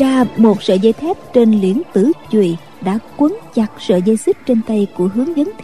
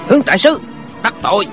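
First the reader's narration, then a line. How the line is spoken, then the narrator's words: Man barking sharply. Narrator (Vietnamese): Một tên hán tử quát lên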